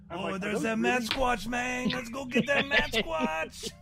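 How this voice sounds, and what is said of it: Put-on cholo accent. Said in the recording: “best cholo impression”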